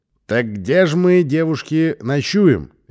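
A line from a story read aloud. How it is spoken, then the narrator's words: Loud repeated question, young brother. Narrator (Russian): еще раз громко спросил братик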